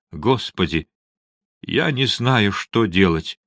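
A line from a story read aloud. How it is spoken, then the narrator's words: Faltering, dejected voice. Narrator (Russian): Он вдруг запнулся и упавшим голосом произнес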